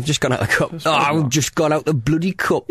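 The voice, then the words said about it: Put-on accent imitating another person. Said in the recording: “You don't have to put any accent on, because that is your accent.”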